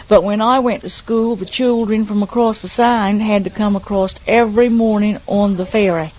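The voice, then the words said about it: Regional accent that sounds English. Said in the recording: “It's that English accent ... You talk so near like they do from there.”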